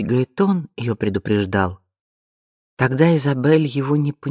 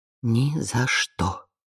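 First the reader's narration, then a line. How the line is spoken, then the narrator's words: Whisper. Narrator (Russian): прошептала она в темноту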